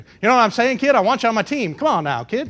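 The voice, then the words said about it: Put-on New York accent. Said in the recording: “That's my New York accent. It's the best I can do.”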